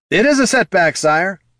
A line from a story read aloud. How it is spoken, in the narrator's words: yelled Johann